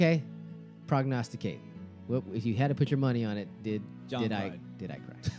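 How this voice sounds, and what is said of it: Usual voice. Nothing is said of it.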